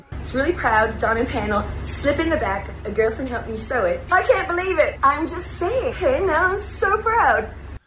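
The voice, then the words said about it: Speaking in a different accent. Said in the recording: “A different accent.”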